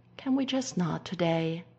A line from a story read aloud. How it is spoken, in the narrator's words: Stiles sighs, feeling very tired